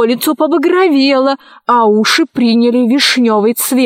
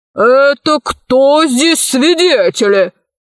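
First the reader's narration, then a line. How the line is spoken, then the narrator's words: Growling colonel. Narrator (Russian): зарычал полковник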